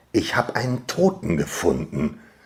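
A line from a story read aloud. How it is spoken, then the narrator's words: Quiet, growing excitement. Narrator (German): sagte ich leise, mehrmals, aber dann mit wachsender Begeisterung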